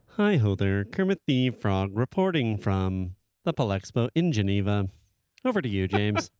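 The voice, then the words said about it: Kermit the Frog character voice. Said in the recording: “doing a Kermit voice ... do the Kermit the Frog here voice ... can do a great Kermit”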